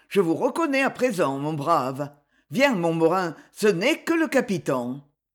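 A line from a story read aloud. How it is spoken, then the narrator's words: Cold. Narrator (French): fit-il froidement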